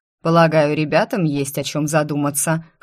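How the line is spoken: Amused snort. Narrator (Russian): хмыкнул Эрго Санс

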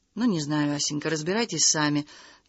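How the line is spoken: Soft, quiet. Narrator (Russian): тихонько проговорил Чистяков

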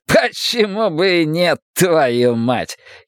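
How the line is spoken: Giggling. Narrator (Russian): хихикает Селен

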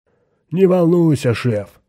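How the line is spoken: Shouted. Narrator (Russian): крикнул он

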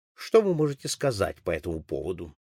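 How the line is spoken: Investigator's dry question. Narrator (Russian): сухо спросил следователь

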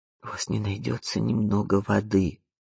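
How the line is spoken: Weak, timid, resigned. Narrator (Russian): спросила она, но голос звучал так слабо и робко, словно она заранее смирилась с отказом

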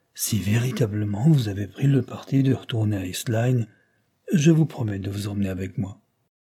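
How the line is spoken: Murmur. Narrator (French): murmura Carlyle

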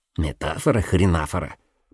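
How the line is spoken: Muttered reply. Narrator (Russian): пробормотал Соболек в ответ

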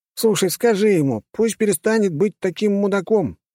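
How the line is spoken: Indignant protest. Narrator (Russian): завозмущался маг

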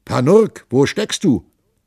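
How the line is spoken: Bewildered call. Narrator (German): Da stand er so verdutzt wie ein Glockengießer und rief

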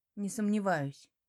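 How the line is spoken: Muttering under breath. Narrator (Russian): бормочу себе под нос

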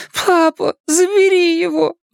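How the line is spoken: Pleading. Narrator (Russian): взмолилась Элли

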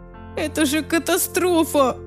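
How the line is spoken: Groaned. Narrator (Russian): простонала Лиззи

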